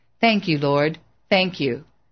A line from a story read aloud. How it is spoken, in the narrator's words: The old man smiled and nodded, saying calmly and with satisfaction